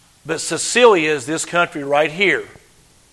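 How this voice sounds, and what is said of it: Usual voice. Nothing is said of it.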